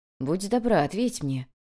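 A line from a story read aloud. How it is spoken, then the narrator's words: Soft request. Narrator (Russian): мягко попросил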